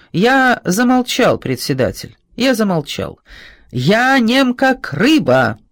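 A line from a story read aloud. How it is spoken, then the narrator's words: Cheerful shout. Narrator (Russian): крикнул он веселым голосом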